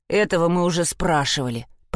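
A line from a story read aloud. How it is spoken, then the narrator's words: Muttering. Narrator (Russian): пробурчал Тортик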